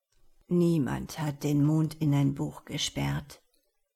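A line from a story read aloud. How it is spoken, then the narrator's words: Tired murmur. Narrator (German): hatte er müde gemurmelt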